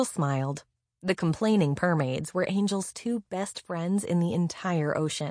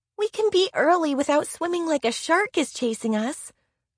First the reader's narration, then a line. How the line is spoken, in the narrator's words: Coral yelped